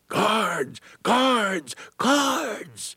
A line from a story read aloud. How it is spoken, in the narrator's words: one freedom rider yelled